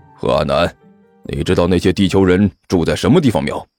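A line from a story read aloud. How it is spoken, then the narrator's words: Low, quiet question. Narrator (Chinese): 狐狸猫低声问了一边的何阿南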